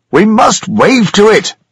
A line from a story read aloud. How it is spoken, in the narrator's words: shouted